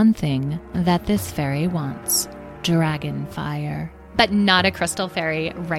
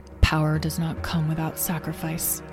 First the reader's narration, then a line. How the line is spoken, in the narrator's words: Azrael murmured to himself